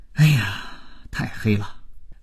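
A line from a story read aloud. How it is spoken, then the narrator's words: Group, long sigh. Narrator (Chinese): 业务员们长叹道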